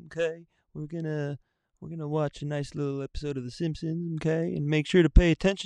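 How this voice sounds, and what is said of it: Impression of a cartoon school counselor. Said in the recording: “here's his impression ... Mr. Mackey”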